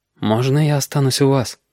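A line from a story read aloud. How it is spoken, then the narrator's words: Quiet request. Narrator (Russian): тихо попросил Галька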